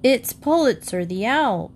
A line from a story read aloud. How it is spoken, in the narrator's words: Penelope yelled, yawning